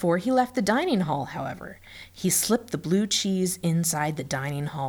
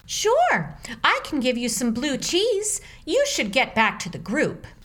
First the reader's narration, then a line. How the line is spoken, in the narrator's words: The cook cheerfully replied